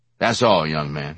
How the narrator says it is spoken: he said, his tone abrupt, official

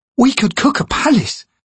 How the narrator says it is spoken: Fiddler added, shifting about excitedly

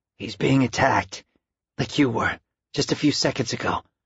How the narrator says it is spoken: his voice hoarse, he said

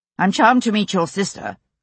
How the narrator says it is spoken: he said to Jane rather coldly

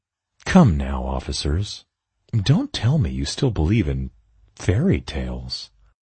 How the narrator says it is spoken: I smiled, whispering back, conspiratorially

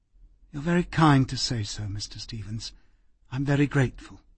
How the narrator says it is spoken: She said quietly

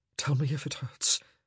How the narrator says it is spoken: he whispered hoarsely

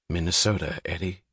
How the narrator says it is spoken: said Dagny grimly

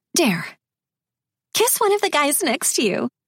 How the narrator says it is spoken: a girl giggled

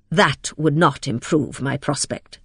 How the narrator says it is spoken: said Lydgate, speaking bitterly

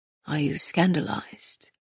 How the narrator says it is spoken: Castile whispered

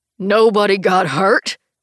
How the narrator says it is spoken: Jim roars

